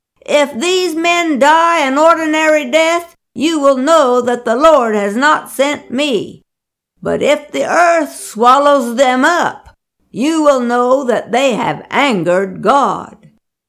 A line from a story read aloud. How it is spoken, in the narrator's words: Moses called out to them